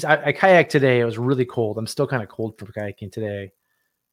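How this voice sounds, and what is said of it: Slightly scratchy, tired voice. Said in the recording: “My voice is even a little scratchy just because I'm a little tired from kayaking.”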